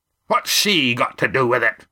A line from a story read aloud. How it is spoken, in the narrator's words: Roaring Jack demanded